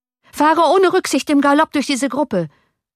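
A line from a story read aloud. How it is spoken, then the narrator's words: Shouting. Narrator (German): schrie Johann dem Kutscher zu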